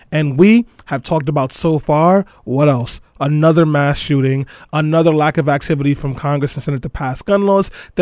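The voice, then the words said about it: Hoarse voice. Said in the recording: “I'm very hoarse”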